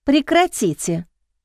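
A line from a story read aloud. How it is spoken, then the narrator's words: Calm. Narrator (Russian): сказала Маша спокойным голосом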